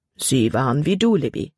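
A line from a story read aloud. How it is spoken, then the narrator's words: Plain. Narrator (German): antwortete ihr Vater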